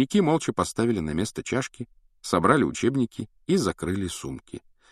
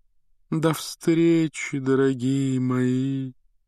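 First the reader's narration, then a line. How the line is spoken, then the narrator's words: Sepulchral breathy exhale. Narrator (Russian): за могильным голосом выдохнула Трелони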